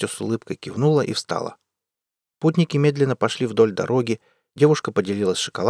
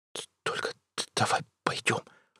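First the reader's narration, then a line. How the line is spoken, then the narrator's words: Whisper. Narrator (Russian): шепотом сказал он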